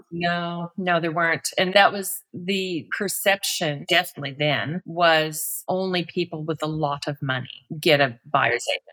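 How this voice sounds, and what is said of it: American-sounding accent. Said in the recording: “people hear my accent and they think I got this idea from America”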